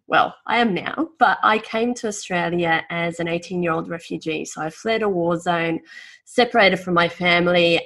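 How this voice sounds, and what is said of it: Australian-sounding accent. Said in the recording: “despite my accent, I'm actually not an Aussie”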